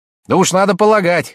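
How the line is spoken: Sharp reply. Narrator (Russian): резко ответила Розалия

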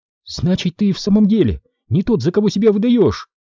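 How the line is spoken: Excited exclamation. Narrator (Russian): возбужденно воскликнула она

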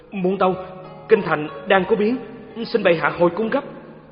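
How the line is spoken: Panicked stammering. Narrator (Vietnamese): ngự lâm quân thản thốt, lắp bắp

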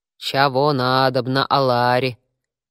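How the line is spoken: Child speaking in deep bass. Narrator (Russian): все тем же басом произнес ребенок

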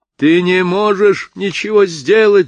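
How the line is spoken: Shouting father. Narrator (Russian): закричал отец

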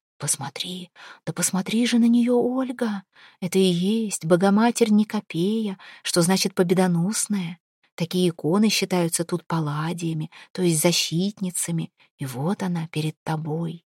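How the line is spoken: Admiring whisper. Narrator (Russian): Григорий уже шептал ей восхищенно

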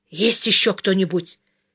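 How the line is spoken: Hoarse whisper, wolf. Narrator (Russian): хриплым шепотом спросил волк

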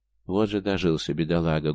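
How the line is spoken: Sad sigh. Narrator (Russian): грустно вздохнул Михайло

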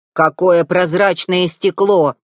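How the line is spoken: Grumbled. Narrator (Russian): заворчал друг принцессы

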